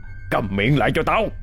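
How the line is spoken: Irritable snapping. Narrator (Vietnamese): làm cậu Hai Lúa gắt gỏng

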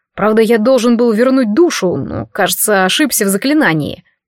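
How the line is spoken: Less cheerful. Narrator (Russian): добавил он уже не так радостно

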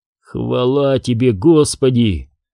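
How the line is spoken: Hoarse male whisper. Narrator (Russian): хрипло прошептал бывший студент

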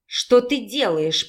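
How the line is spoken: Angry near-growl. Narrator (Russian): почти прорычала она, злясь на себя и на виновника ее угнетающего состояния

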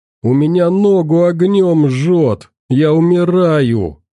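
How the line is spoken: Moaning. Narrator (Russian): стонал Толян

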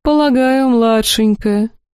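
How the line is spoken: Priest's mocking tone. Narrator (Russian): насмешливо произнес девятый жрец

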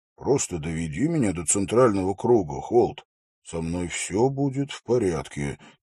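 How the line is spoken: Quiet. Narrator (Russian): тихо произнес Хорс

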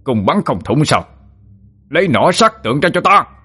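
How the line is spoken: Furious shout. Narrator (Vietnamese): Tổng binh sứ nổi cơn giận, ngã quát lên

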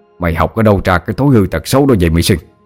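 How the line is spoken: Angry, through gritted teeth. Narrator (Vietnamese): Ông đang tức giận gằn giọng

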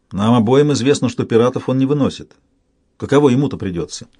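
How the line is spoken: Hmphing. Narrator (Russian): Брэшен снова хмыкнул

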